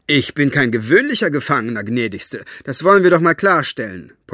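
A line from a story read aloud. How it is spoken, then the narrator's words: Gruff blustering. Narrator (German): polterte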